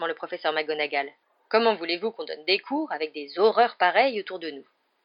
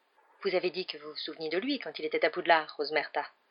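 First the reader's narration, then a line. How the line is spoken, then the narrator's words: Murmur. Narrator (French): murmura le professeur McGonagall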